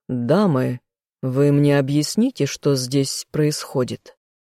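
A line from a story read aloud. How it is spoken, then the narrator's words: Stern indignation. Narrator (Russian): Строго возмутился я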